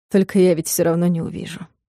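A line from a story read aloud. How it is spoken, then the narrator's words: Gentle reminder. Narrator (Russian): мягко напомнил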